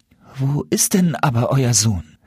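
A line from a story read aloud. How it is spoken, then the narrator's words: Trembling voice. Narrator (German): fragte Jakob mit zitternder Stimme seinen Vater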